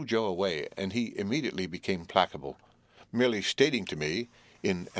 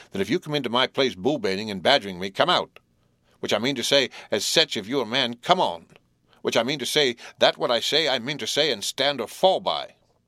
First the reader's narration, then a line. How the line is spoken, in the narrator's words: cried Joe